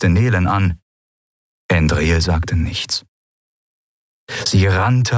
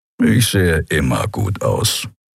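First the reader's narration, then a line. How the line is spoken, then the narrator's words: Grumble. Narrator (German): brummte Keru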